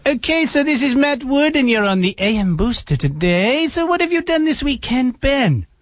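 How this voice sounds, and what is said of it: Impression of a co-host. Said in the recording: “did a great impression of me”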